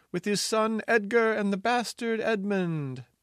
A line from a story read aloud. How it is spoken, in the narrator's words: cried a sentry on the west wall